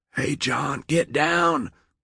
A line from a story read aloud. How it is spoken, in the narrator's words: Wilson gasped